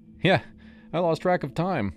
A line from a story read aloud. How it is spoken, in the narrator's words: I admitted, laughing it off